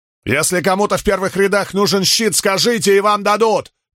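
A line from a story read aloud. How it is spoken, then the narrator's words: Shouted. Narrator (Russian): крикнул Спартак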